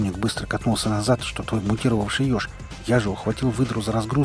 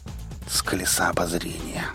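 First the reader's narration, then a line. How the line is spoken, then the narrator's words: Breathless exhale. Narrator (Russian): выдохнул Шрам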